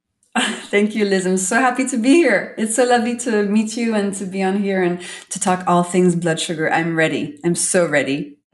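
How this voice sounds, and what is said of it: Melodic French accent. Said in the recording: “your really beautiful accent ... such a melodic way of speaking ... I'm French”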